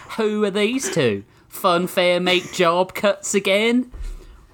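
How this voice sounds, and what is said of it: Convincing put-on American Southern accent. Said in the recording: “unbelievably good southern accent you're doing ... This is what people in South Carolina sound like.”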